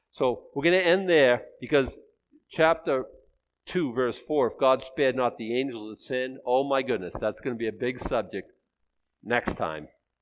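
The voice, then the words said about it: Very fast auctioneer-like speech. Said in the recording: “I know I'm talking like an auctioneer on steroids”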